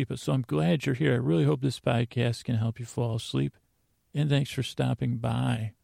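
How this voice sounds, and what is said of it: Soft, slow, slightly creaky voice. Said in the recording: “My voice is on the creaky side of dulcet, but I'm going to talk soft. I'm going to talk slow.”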